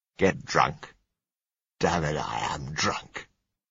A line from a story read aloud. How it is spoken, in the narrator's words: said scornfully